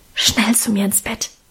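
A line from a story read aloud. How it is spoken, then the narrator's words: Whispered. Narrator (German): flüsterte sie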